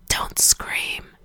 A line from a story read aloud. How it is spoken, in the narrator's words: whispered